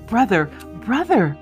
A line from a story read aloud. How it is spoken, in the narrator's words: cried Miss Prost, bursting into tears